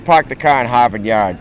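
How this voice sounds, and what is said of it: Poor attempt at Boston accent. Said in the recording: “give me a line to say in a Boston accent ... No, terrible.”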